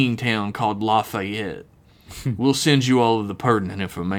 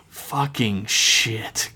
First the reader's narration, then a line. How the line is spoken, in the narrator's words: Kayla muttered to herself